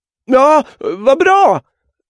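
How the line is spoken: Calling back. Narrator (Swedish): ropade tillbaka

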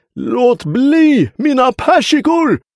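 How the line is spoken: Roaring. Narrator (Swedish): vrålade han

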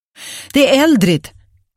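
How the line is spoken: Shouted from the hall. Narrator (Swedish): ropade Agnes från hallen

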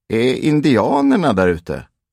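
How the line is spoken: Asked loudly. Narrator (Swedish): frågade högt

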